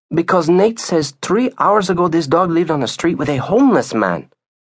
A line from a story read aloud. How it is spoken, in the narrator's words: she answered quickly